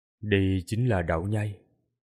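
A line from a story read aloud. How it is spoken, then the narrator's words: Quiet voice. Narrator (Vietnamese): Tô Minh nhỏ giọng nói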